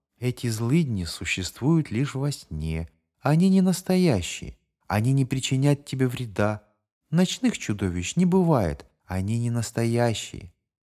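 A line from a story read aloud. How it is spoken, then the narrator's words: Mother's tender whisper. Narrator (Russian): Мать нежно шептала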